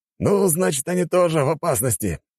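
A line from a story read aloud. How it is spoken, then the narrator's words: Chuckling commander. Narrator (Russian): хохотнул командующий гвардией Фюрель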